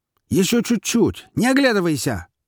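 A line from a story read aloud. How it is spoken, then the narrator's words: Shouting beetle. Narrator (Russian): прокричал жук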